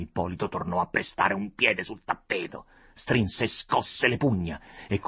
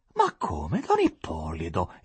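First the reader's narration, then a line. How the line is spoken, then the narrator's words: Astonished, distressed exclamation. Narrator (Italian): esclamò con stupore e afflizione monsignore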